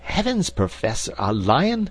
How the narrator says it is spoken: cried Mr

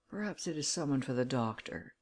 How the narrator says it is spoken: muttered her husband

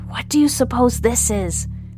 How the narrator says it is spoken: whispers Lucas

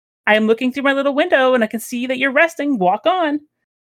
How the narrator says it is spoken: one of the girls in the basket called out

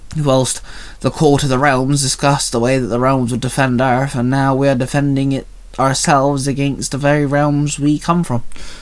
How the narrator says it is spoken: Penny sighed

